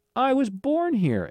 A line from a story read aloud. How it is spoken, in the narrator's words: Alan exclaimed